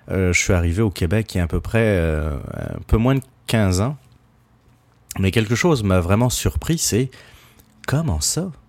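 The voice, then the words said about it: Non-Québécois French accent. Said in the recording (French): “juste à écouter mon accent, je ne suis pas un Québécois de souche”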